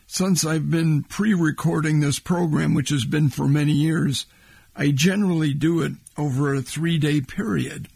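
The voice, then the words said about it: Hoarse, worn-out voice. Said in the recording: “My voice is beat to hell all 3 days, including, it sounds like, today”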